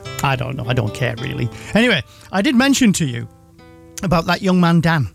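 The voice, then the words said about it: Yorkshire Teesside English accent. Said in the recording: “my sort of like Yorkshire Teesside accent”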